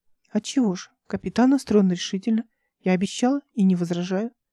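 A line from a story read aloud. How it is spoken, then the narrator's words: Plain. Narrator (Russian): сказала она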